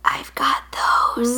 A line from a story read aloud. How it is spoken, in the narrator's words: still smiling, and whispered